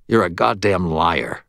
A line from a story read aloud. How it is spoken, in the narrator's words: Murphy snarled